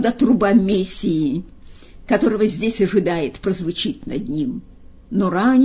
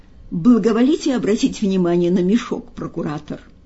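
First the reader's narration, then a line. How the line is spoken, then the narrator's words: Plain. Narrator (Russian): ответил Афраний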